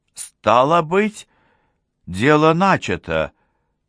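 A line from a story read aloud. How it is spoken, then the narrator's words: Exclaiming. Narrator (Russian): воскликнула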